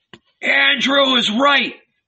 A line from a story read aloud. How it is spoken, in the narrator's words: they yelled